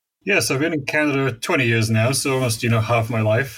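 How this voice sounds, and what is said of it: Non-Canadian foreign English accent. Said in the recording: “people can probably tell from your accent that you are not a native of Canada”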